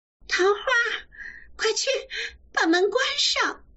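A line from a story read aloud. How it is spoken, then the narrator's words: Strange yelp. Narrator (Chinese): 咬得艾月怪叫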